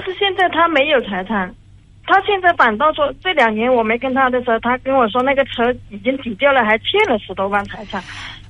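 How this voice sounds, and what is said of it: Speaks Mandarin with a regional accent. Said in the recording (Chinese): “而且你还带带口音”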